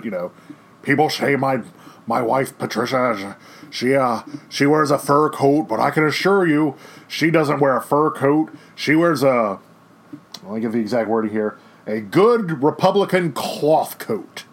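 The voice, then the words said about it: Poor Richard Nixon impression. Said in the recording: “to do a horrible Richard Nixon impersonation,”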